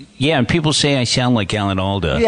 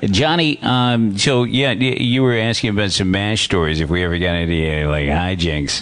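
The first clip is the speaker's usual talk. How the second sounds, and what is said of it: Imitates another person's voice. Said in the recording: “do an Alan Alda impression”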